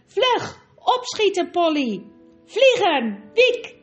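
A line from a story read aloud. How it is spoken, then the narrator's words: Shout. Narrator (Dutch): schreeuwde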